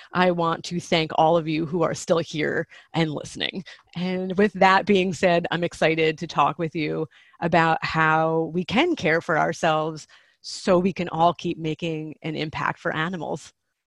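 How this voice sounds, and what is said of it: American accent. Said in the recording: “listen to an American accent for a while... I wish I could put on a lovely Australian voice”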